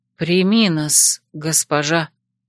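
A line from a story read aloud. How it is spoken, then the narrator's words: Quiet repetition. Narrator (Russian): тихо повторила Алая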